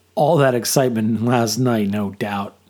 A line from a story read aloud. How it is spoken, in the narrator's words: chuckled